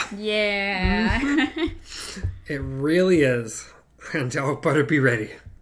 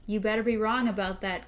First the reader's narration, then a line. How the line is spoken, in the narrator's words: Cuthbert said